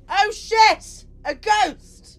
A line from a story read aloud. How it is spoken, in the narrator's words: I decided to yell